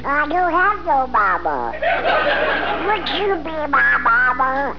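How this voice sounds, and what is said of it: Cartoon duck character voice. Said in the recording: “you're looking at the duck ... I did the voice”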